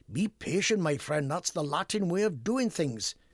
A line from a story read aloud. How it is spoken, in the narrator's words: answered Professor Jones